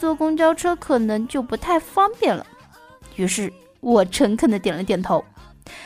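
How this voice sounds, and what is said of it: Usual voice. Nothing is said of it.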